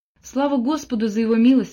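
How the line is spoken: Exclaimed. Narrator (Russian): воскликнула Мот

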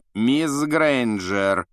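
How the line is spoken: Icy rebuke. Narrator (Russian): Ледяным голосом осадил Гермиона Снег

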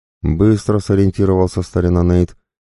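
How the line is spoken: Displeased, through gritted teeth. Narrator (Russian): недовольно процедил я сквозь зубы

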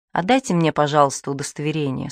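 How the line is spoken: Calm. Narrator (Russian): спокойно сказала сестра Клотильда

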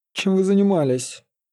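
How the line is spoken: Druid's displeased grumble. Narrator (Russian): недовольно проворчал друид

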